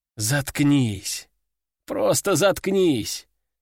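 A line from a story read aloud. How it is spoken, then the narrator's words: Weary sigh. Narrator (Russian): Устало вздохнул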